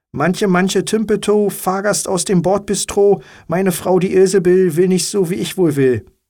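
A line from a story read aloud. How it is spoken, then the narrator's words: Called out, man. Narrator (German): der Mann rief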